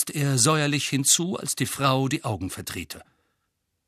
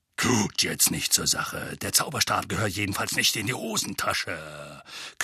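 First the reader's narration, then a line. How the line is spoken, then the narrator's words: Growling. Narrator (German): knurrte Mad-Eye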